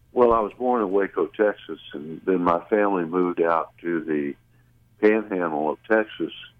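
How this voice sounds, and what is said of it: Slight Southern drawl. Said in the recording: “you have a certain cadence. There's a little bit of what I'll call a Southern drawl.”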